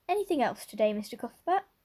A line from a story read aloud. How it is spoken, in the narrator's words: Miss Harris cheerfully inquired